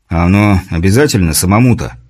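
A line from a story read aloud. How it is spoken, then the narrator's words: Displeased grumble. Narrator (Russian): недовольно пробурчал Борис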